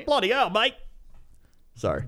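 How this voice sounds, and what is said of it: Put-on Australian accent. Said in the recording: “Great Australian accent. ... I always try to do that, and I always don't do it correctly. ... That time you nailed it, I think.”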